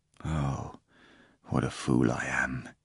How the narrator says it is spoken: muttered in heartbreaking pain

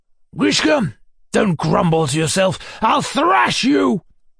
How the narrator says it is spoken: shouted suddenly

